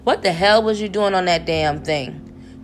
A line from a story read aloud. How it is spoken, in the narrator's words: Crunch grumbled